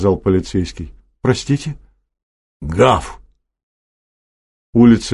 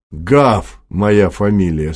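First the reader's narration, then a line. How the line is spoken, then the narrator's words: Plain. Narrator (Russian): сказал полицейский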